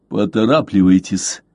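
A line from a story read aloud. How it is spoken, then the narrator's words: More menacing tone. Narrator (Russian): только и ответил ему Блад, но уже более грозным тоном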